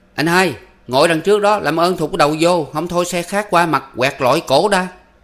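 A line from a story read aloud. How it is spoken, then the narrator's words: Loud shouting. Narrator (Vietnamese): tiếng quát tháo của anh Lơ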